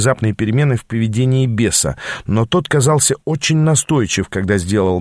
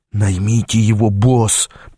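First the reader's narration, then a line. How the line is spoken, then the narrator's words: Hiss into ear. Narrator (Russian): прошипел он мне в ухо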